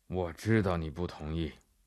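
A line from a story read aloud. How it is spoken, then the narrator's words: Flat, impatient reply. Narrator (Chinese): 英格曼神父又是哑不可耐了，他淡淡地回答法比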